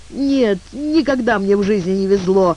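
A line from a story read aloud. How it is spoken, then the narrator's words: Whimpering, sniffling. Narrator (Russian): с хныканьем и хлюпаньем носом добавил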